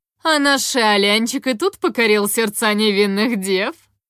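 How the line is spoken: Mocking drawl. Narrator (Russian): Насмешливо протянула Лис

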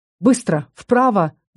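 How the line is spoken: Yell. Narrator (Russian): заорал Фалькон

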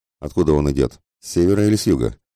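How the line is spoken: Calm question. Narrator (Russian): спокойно спросил мистер Фок

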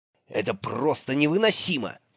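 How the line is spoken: Irritated hiss. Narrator (Russian): прошипел он

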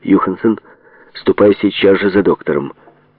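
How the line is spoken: Stern command. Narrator (Russian): строго приказала

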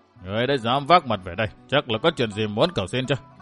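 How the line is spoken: Stern old man. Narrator (Vietnamese): Lão … nghiêm giọng bảo với Kỳ Lân

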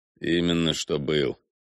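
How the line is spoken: Quiet confirmation. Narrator (Russian): негромко подтвердил Прид

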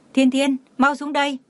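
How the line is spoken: Loud shout. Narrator (Vietnamese): Lúc Lý Mẫn dưới lầu nhìn thấy thì hét lớn

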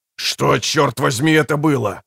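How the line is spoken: Growled. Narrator (Russian): прорычал Фишек

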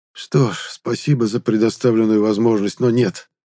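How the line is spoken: Weary smirk. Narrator (Russian): Устало усмехнулся я

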